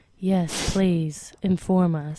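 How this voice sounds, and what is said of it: Public radio announcer voice. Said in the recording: “Why are you talking in your NPR voice?”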